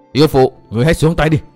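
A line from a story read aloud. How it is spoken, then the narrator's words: Man shouting angrily. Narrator (Vietnamese): Không chịu được giọng nói nửa mỉa mai, nửa hăm dọa của nữ quái, Tư Mã Minh tức giận quát lớn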